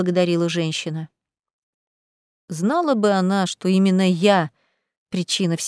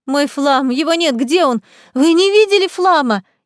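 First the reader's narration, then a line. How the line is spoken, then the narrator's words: Frantic scream. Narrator (Russian): истошно кричала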